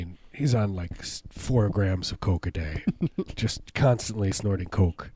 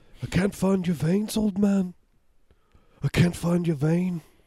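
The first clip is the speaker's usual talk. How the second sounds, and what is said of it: Imitates another person's voice. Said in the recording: “That's my Eric Clapton in hospice. ... Impersonation.”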